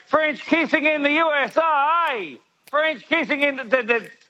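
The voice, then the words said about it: Singing in a put-on American accent. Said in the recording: “I'm going to sing to you in American accent like Peter before ... that's heaps American”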